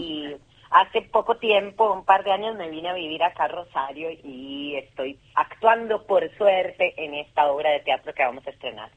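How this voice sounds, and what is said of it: Central American, Costa Rican accent. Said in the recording (Spanish): “esa tonada de dónde la traes? ... Esta tonada la traigo de Centroamérica, ... Costa Rica.”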